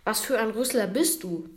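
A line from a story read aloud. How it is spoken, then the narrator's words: Bear roaring. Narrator (German): brüllt der Bär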